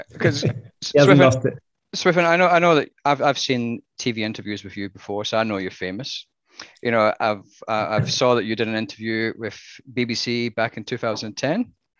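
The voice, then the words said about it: Strong Scottish accent. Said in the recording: “how Scottish is ... accent these days and how Australian is? ... It's still very Scottish. Yeah. Still very Scottish.”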